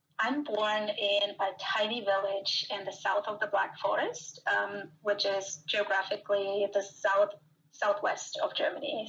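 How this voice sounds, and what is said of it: German accent. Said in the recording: “as you probably can hear, I am born and raised in Germany. I have that German accent.”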